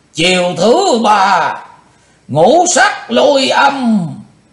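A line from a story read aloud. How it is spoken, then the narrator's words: Sudden loud shout. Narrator (Vietnamese): Đột ngột Chung Ly Mộ Hoàng quát lớn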